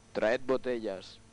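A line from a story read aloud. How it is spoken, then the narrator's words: Plain. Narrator (Spanish): dijo el conde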